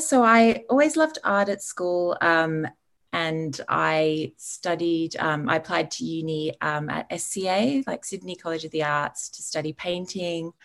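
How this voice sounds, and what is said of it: Slight English accent. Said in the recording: “you have a bit of an English accent”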